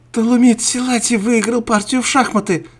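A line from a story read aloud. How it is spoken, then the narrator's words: Shouted. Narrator (Russian): закричала Мария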